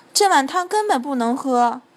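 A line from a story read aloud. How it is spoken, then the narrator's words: Shouting. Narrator (Chinese): 马丁大叫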